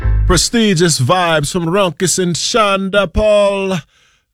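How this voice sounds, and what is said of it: Put-on accent, self-described as whack. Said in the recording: “this whack accent”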